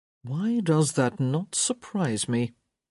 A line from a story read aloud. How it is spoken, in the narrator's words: Gareth murmured